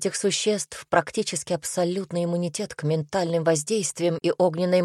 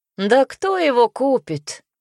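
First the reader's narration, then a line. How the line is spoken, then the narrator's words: Woman laughing. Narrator (Russian): рассмеялась женщина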